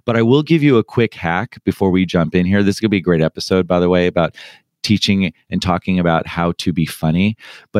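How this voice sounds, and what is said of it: Hoarse, strained voice. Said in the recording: “I'm still recovering from a sore throat, a hoarse voice”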